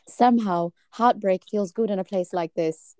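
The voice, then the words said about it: Put-on British accent. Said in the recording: “She's kind of British. ... You got a good accent.”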